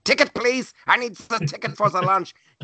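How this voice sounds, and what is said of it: Heavy German accent impression. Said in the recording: “she had this huge German accent.”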